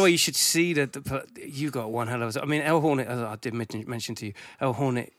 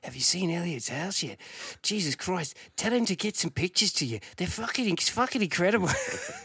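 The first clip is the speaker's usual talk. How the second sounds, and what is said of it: Imitates another person's voice. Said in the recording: “That was a bad impression, sorry, El. ... That was quite a good impression.”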